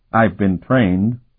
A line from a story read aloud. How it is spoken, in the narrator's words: the novice said a bit stiffly